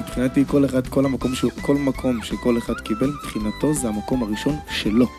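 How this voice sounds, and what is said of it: Hoarse voice. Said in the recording (Hebrew): “אתה נשמע לי קצת צרוד, אני טועה? ... ממש צרוד, ממש ממש.”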